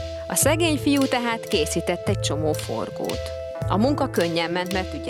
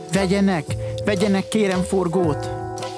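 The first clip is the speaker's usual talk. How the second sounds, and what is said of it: Pleading, begging child's voice. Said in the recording (Hungarian): “Szólt könyörgő hangon a fiúcska.”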